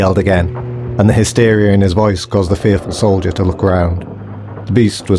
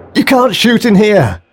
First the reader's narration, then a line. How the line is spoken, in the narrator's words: he shouted